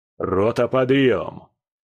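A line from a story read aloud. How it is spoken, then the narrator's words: Habitual barked command. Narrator (Russian): рявкнул скала по привычке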